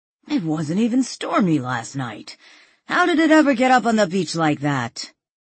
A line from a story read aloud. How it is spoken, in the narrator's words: Now walking alongside the two officers, Pete said in a breathless voice